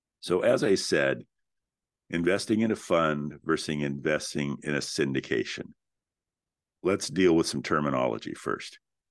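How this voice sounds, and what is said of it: Slightly raspy voice. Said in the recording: “my voice sounds a little bit different. I am just getting over a cold, and so my apologies for the occasional raspiness.”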